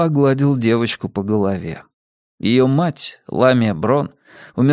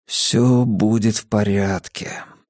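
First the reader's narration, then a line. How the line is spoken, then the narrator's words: Whisper. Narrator (Russian): прошептал я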